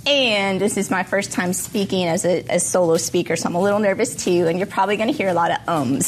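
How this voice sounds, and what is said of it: Slightly hoarse voice. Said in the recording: “I am recovering from a really bad case of bronchitis, so my voice is a little hoarse”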